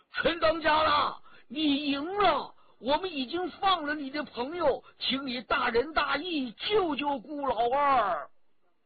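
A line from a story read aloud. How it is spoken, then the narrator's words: Raised, urgent calling. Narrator (Chinese): 哈和台 他提高了声音向陈家洛叫着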